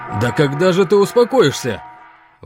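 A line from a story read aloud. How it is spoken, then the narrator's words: Fisherman's shout. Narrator (Russian): выкрикнул один из рыбаков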